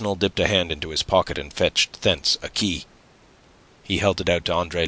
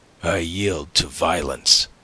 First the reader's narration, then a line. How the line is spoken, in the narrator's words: he said, showing his teeth like a snarling dog